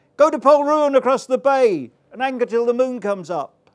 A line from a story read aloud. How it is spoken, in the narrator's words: cried